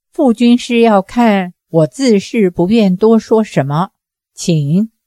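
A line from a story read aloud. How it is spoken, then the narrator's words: Flat, indifferent. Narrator (Chinese): 展云飞淡淡地说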